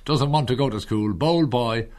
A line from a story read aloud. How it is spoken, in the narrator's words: he laughed and said